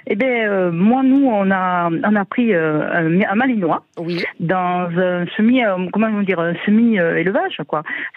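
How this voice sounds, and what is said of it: Southern French accent. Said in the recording (French): “vous avez un bel accent, vous appelez du sud de la France”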